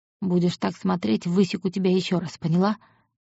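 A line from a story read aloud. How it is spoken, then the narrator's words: Soft. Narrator (Russian): негромко сказал он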